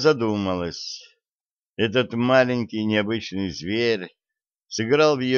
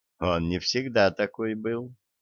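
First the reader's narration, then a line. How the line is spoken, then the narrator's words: Soft, smiling. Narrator (Russian): мягко улыбнулась Пламена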